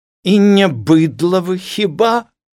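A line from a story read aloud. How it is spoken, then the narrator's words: Shouting. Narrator (Belarusian): крычала перад класам дзеўка ў розуме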